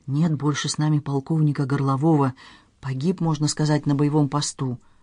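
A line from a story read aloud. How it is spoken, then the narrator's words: Distinct theatrical whisper. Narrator (Russian): тяжело вздохнул и прошептал отчетливым театральным шепотом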